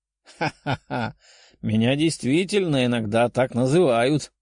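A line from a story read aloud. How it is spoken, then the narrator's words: Man laughing. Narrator (Russian): рассмеялся мужчина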